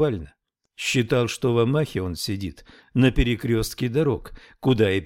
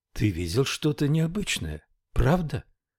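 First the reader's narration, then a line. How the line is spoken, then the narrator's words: Night whisper. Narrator (Russian): прошептала среди ночи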